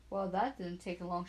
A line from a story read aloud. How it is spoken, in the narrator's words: she said